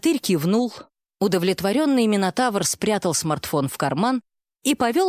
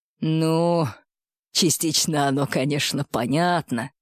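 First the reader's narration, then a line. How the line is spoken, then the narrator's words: Muttered under breath. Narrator (Russian): пробурчал под нос Максим Максимович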